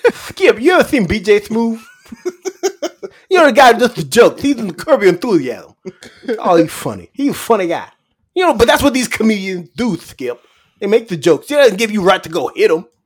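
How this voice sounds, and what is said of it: Imitates another person's voice. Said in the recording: “Very similar to Shannon ... do a BJ Smooth impersonation”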